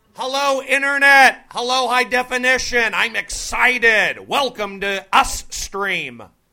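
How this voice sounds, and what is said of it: Excited screaming into the microphone. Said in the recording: “you're screaming into the microphone ... So I'm getting yelled at for screaming”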